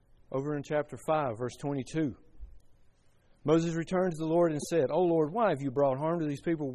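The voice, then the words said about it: Southern drawl, mumbling. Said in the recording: “I've got a southern drawl. I mumble. I mispronounce words.”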